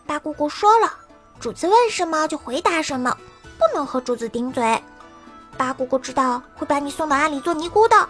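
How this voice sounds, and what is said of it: Quiet, hushed child's voice. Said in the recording (Chinese): “小声道”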